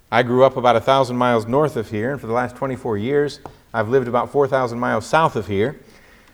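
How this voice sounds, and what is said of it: Mixed West Virginia-Ohio-Brazilian accent. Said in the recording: “I go somewhere between a West Virginia, Ohio, Brazil accent, and that's a little different than accents I hear here”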